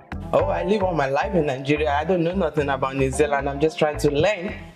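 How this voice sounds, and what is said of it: Nigerian accent. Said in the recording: “Typical Nigerian woman. You can't even change the accent.”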